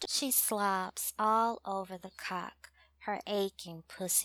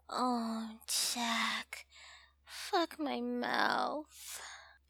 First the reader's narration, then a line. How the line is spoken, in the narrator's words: Moaning, mumbles